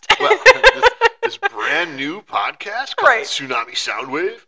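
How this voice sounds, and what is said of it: Announcer voice. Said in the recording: “That was my announcer voice.”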